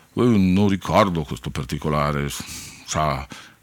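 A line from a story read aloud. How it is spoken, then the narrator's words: Murmured. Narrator (Italian): aveva mormorato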